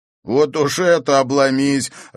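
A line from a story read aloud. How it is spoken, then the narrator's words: Guy laughing loudly. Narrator (Russian): расхохотался парень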